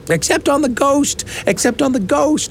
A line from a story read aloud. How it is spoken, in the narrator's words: shrieked the twins